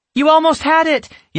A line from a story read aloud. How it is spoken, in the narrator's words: Yasmin exclaimed with encouragement